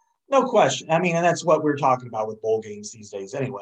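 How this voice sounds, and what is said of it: Usual voice. Nothing is said of it.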